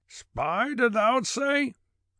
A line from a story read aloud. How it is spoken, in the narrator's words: he shouted